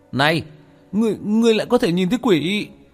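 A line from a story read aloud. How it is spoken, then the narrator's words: Startled exclamation. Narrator (Vietnamese): Tên lừa đảo kêu lên một tiếng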